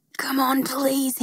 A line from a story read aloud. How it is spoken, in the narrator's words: he muttered through clenched teeth